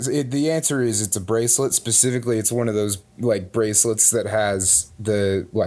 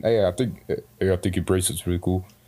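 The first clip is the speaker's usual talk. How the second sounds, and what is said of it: Imitates another person's voice. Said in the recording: “It's a really good impersonation of Charles Barkley ... He's terrible at impressions.”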